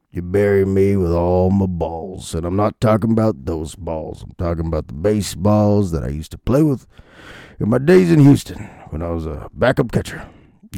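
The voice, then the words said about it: Bruce Bochy impression, gravelly old voice. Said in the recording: “an old wrinkly man doing his Bochy impression into the mic ... It's not a good Bochy impression anymore.”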